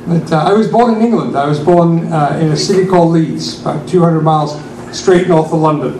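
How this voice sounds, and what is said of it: English accent drifted toward American. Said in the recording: “My accent that you hear is because I've lived in America for 32 years, and over the years it's kind of drifted away.”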